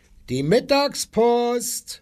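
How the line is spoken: Called out. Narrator (German): rief er

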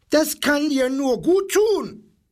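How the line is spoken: Parrot screeching. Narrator (German): kreischte der Papagei

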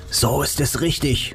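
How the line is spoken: Whispering. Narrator (German): flüsterte Nick

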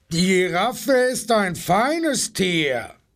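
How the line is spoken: Rhinoceros roaring. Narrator (German): brüllte das Nashorn

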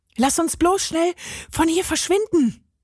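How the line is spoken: Calling out. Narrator (German): rief Carlos

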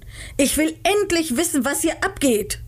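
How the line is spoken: Shouted at them. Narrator (German): schrie sie an

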